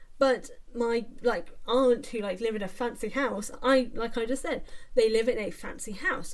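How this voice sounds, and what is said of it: Posh-sounding British accent. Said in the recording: “I, for example, have a posh accent, or I have a posh sounding accent.”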